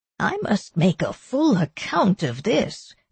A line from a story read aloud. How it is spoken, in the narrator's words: the doctor said happily